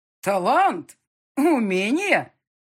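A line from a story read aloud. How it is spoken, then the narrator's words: Father exclaiming. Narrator (Russian): воскликнул отец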